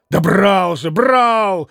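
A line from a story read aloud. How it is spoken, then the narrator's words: Exclaimed. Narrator (Russian): воскликнул Митя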